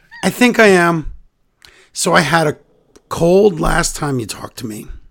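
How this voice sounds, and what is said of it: Hoarse, strained voice. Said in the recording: “welcome to Laryngitis, the musical... This is how I always sound... losing my voice, too, but compared to you... turned into bronchitis and then laryngitis. And now my voice is coming back.”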